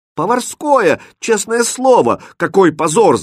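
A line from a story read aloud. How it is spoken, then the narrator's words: Kitchen boys wailing loudly. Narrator (Russian): завопили поварята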